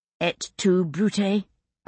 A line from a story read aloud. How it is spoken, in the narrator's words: I said rather curtly